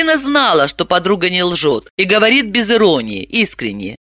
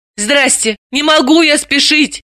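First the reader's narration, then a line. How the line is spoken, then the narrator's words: Pleading. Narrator (Russian): взмолилась Далила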